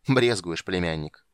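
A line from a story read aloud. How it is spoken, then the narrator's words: Contemptuous snort. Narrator (Russian): презрительно хмыкнул архимаг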